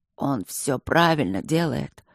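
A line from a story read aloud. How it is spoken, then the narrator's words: Barely audible hoarse wheeze. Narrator (Russian): просипел едва слышно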